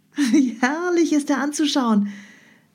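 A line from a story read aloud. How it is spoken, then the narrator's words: Delighted exclamation. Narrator (German): rief Europa entzückt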